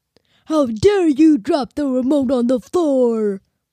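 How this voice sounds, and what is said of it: Unconvincing impression of the interviewer. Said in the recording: “You have an impression of me? ... That doesn't sound like a very good impression”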